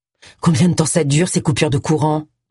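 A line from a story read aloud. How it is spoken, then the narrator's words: Plain. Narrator (French): demanda-t-il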